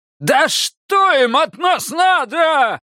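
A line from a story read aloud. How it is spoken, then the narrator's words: Yell. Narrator (Russian): заорал Васька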